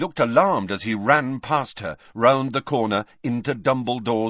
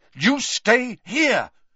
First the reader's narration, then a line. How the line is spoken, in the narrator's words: Harry repeated angrily